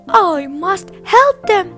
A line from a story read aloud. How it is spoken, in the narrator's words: he cried